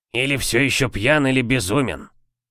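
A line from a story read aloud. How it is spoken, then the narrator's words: Grumble. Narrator (Russian): буркнул Мортимер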